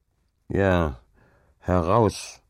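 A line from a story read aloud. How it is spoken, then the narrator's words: Grumbling. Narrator (German): brummte Hauke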